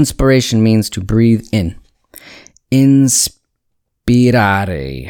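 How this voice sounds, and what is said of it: Usual voice. Nothing is said of it.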